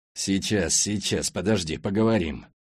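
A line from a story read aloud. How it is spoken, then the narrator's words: Muttered through teeth. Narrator (Russian): Пробормотал сквозь зубы Скворцов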